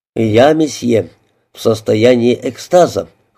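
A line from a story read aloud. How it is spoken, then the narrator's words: Cold reply. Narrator (Russian): холодно ответил месье де Равиньи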